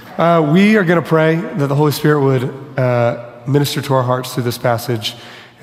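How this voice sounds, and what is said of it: Hoarse, fading voice. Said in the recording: “losing my voice a little bit. I've been losing my voice throughout the week”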